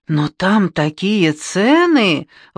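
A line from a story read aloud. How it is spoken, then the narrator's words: Exclaiming. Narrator (Russian): воскликнула Маргарет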